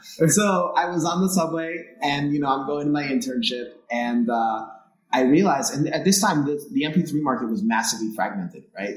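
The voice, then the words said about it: New York accent. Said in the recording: “in New York City ... I think you can tell by my accent anyway”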